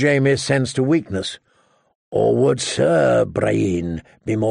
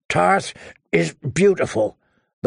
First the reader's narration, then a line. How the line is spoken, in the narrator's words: the wench grunted between strokes